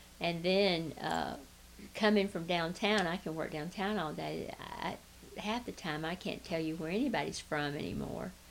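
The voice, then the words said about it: Southern American accent. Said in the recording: “slow Southern talk ... as bad as my accent is, theirs is just way drawn out”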